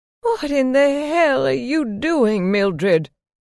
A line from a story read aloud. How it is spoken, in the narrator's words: she screamed